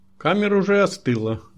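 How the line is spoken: Loud reply over hum. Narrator (Russian): громко ответила, перекрикивая низкий вибрирующий гул, который наполнял зал

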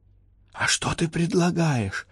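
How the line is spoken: Whisper. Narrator (Russian): прошептала Элеонора

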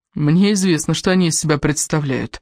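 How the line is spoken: Tired reply. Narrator (Russian): ответил Кевин, устало

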